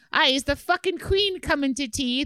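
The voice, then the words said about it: Bad put-on Irish accent. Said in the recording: “Is that a bad Irish accent?”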